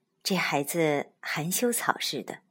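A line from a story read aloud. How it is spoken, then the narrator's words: Soft sigh. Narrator (Chinese): 他微微叹道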